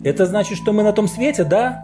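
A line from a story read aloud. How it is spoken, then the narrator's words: Almost joyful exclamation. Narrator (Russian): Чуть ли не с радостью воскликнула Аня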